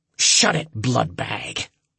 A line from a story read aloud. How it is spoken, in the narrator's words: the creature hissed